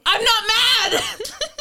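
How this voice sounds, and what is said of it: Raised, loud voice. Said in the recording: “raising your voice”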